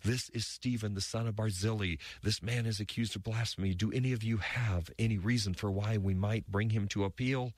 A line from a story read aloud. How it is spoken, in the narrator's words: he again shouted